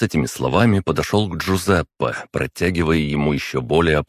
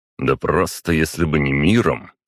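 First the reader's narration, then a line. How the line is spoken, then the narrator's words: Snort. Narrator (Russian): хмыкнул на это Виктор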